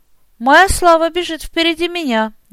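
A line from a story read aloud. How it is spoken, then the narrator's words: Laughing chuckle. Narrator (Russian): я не удержался от хохотка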